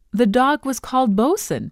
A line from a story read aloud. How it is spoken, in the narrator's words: cried delightedly